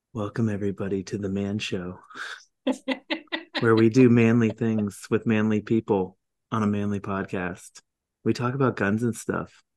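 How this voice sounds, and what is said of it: Mock public-radio announcer voice. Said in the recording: “Say that in your NPR voice ... I had to hear that in the NPR voice.”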